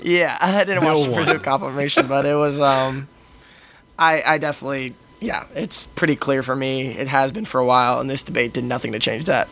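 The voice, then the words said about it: Slightly hoarse voice. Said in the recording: “my voice is a little hoarse, guys. I'm sorry. There was a bit of yelling.”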